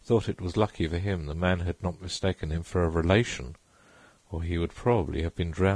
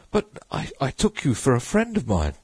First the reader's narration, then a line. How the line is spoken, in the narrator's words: he stammered confusedly